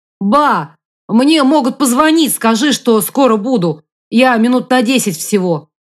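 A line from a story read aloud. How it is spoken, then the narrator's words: Shout. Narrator (Russian): крикнул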